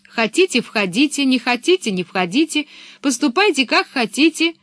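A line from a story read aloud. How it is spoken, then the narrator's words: Shouted. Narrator (Russian): крикнула она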